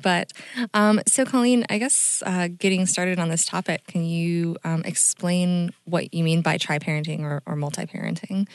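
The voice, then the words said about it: Voice lower than usual. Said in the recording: “my voice is a little lower than usual ... just getting over the flu”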